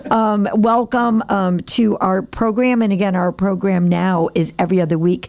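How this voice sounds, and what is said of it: Raspy, hoarse voice. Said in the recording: “I'm sorry I have a raspy voice... it's finally hit me. I'm losing my voice a little bit... the Marlo Thomas in me”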